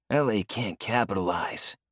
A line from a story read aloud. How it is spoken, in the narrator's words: Leo grumbles